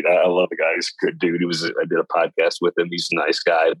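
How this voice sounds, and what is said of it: Slight Southern drawl, Kentucky. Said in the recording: “he's sort of like me. He got that little Southern drawl thing going ... I'm from West Kentucky originally”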